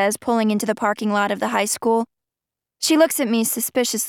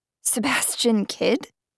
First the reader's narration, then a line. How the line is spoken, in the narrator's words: I gasp